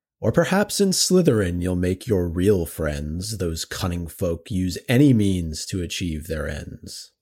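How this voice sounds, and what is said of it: Deep voice dramatic reading. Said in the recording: “Minus the British accent ... You got the deep voice part right.”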